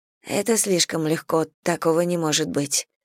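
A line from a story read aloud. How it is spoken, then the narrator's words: Muttered. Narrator (Russian): пробормотала Саня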